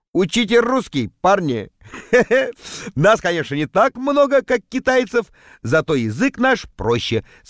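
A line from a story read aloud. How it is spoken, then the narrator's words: Laughing. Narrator (Russian): смеялся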